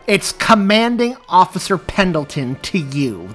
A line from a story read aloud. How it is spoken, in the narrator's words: the woman snapped loudly